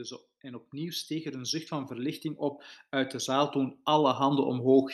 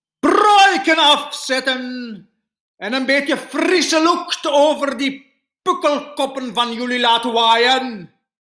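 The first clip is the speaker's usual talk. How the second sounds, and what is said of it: Odd foreign accent, harsh guttural sounds. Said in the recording (Dutch): “ze praten zo'n beetje eigenaardig. Het klonk als een soort buitenlands accent met veel harde keelklanken.”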